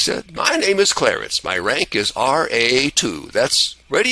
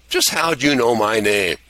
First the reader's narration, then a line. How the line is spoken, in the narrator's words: He laughed again